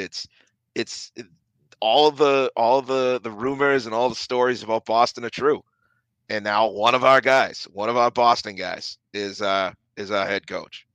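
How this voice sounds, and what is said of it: Boston accent slipping into speech. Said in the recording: “I just slipped my accent there. That's not great... maybe it's the accent”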